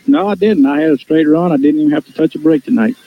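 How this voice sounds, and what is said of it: Speaks with a noticeable accent. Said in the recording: “I love ... accent”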